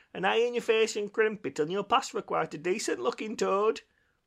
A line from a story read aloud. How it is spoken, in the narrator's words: called out